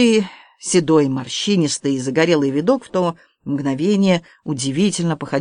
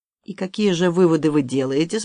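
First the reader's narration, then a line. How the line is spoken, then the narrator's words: Forced calm question. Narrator (Russian): спросил Алексей, стараясь говорить спокойно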